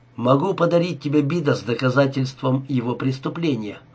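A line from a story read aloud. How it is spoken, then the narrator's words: Quick. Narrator (Russian): быстро сказал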